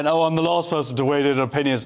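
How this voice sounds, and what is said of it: Put-on dim-witted character voice. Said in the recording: “That was my stupid person impression”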